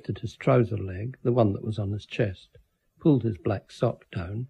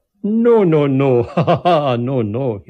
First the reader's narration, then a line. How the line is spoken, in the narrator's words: he laughed